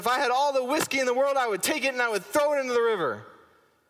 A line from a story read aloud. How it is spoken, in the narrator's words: with even more emphasis, he shouted